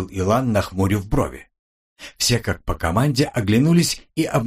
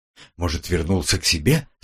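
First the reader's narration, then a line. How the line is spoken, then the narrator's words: Trembling voice. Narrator (Russian): спросил кто-то дрожащим голосом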